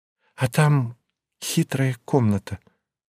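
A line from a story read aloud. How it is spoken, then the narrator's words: Confiding tone. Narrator (Russian): доверительным тоном сообщила Мария Федоровна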